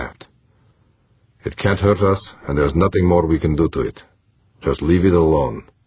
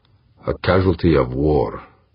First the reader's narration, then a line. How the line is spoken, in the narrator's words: Harbin said grimly